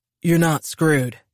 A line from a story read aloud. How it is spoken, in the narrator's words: Ryan said, in a deep, husky voice that was as soothing as a warm bath